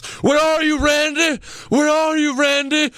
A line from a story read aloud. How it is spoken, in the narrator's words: he yells